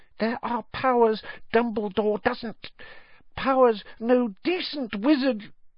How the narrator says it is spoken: Dobby's voice dropped to an urgent whisper

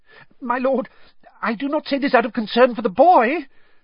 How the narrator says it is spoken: said Wormtail, his voice rising squeakily

